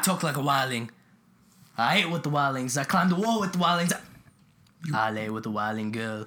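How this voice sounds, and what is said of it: Poor impression of Jon Snow. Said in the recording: “That's my Jon Snow impression. I've been told it sounds terrible, but I think it's good.”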